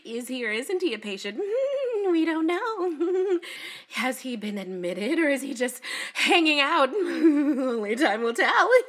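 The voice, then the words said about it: Coy, affected imitation of doctors. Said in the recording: “really bizarrely coy, they might as well have had a fan fluttering in front of their face ... That is my impersonation of the doctors”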